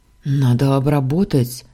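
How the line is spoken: Frightened. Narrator (Russian): говорит испуганно

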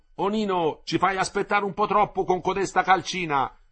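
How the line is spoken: Shouting. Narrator (Italian): gli gridò Lippi

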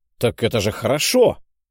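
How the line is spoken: Exclaiming. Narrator (Russian): воскликнул я

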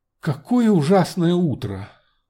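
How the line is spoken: Sudden exclamation. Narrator (Russian): будто вспомнив, воскликнула

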